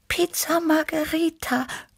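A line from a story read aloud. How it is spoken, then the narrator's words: Purring. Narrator (German): schnurrte Tibi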